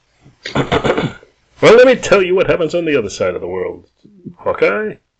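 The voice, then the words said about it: Game show host character voice. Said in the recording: “should do a different voice for the Stick ... should we do him like a game show host? ... That's not a good voice.”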